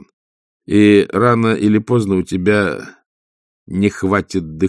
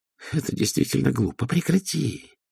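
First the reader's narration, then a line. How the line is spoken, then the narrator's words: Hiss. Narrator (Russian): прошипел он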